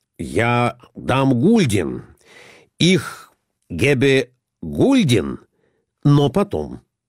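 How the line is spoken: Plain. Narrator (Russian): сказал Николай Иванович

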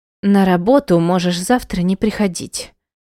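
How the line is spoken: Through gritted teeth. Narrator (Russian): процедила Света

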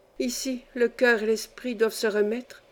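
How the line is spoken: Young girl murmuring. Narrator (French): murmura la jeune fille

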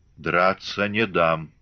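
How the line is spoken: Muffled huff. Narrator (Russian): глухо сапнул Григорий

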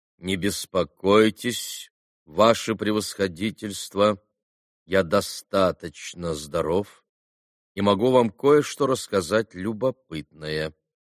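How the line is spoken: Sudden calm, respectful reply. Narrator (Russian): ответил вдруг совсем спокойно и почтительно Иван Федорович

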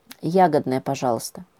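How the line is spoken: Mumbled. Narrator (Russian): пробормотала она

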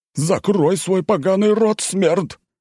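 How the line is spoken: Deafening uncontrolled yell. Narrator (Russian): Не сдержался Стрельцов и заорал так, что у меня чуть уши не взорвались

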